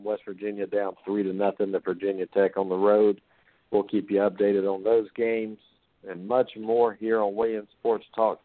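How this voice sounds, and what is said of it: Congested voice from a cold. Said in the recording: “I have a little cold tonight. I've been trying to fight it off a little bit”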